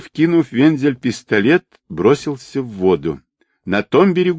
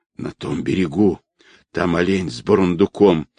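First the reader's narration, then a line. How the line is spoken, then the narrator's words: Frightened hoarse wheeze. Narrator (Russian): испуганно косясь на нож, прохрипел медведь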